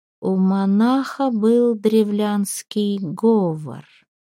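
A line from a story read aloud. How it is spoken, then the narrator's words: Slow witch's voice. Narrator (Russian): медленно произнесла ведьма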